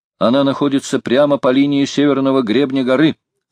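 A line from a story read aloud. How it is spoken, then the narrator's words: Plain. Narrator (Russian): сказал Джон Манглс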